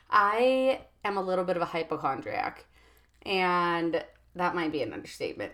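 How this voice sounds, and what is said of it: Raspy, hoarse voice. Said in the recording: “she sounds a little bit like Miley Cyrus. She's kind of had a raspy voice for a week or so”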